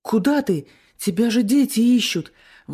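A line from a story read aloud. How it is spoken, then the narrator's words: Exclamation. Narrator (Russian): воскликнул он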